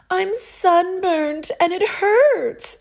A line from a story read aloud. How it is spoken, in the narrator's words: she cried